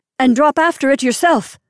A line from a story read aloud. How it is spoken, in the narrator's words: I shouted at him